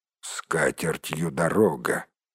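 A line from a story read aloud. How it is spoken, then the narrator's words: Dwarf's grumble. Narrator (Russian): проворчал кто-то из гномов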